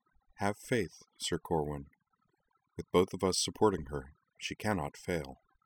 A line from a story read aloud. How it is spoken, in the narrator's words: She offered him an only slightly strained smile and said softly